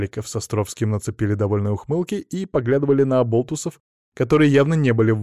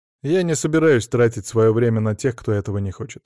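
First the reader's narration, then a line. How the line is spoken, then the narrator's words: Calm reply. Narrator (Russian): спокойно ответил я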